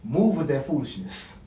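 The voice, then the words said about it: African accent imitation. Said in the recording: “in her African accent.”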